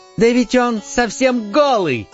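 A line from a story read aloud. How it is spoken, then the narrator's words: Small boy shouting. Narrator (Russian): закричал вдруг один маленький мальчик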